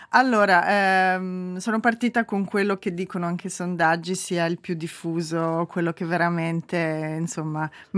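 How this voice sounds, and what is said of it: Slight Tuscan Italian accent. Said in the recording (Italian): “Non ha l'accento tedesco... ha un leggero,... accento toscano.”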